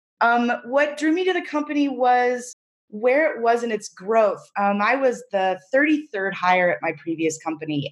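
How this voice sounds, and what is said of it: Congested, slightly rough voice. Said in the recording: “I have a little bit of a cold, so pardon my voice”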